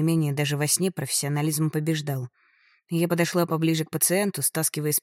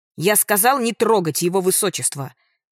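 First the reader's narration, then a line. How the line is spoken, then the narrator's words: Nasty shout. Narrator (Russian): закричал он мерзким голосом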